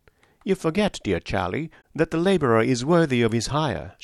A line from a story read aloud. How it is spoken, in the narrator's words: said, brightly